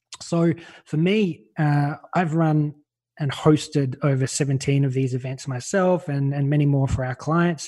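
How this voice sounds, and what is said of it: Australian accent. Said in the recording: “I'm Australian. You can probably tell by my voice”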